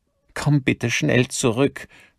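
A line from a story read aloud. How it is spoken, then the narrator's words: Breaking voice. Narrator (German): sagte mit brechender Stimme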